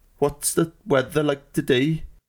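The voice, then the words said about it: Poor put-on Norwegian accent, sounds Welsh. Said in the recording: “they speak like they're sort of cutting off their words like halfway through, don't they, Norwegians? ... That just sounds like a Welshman doing a bad impression of a Welshman. ... I'm no good at accents”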